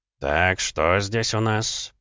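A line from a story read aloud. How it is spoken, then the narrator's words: Killer muttering. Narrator (Russian): пробормотал убийца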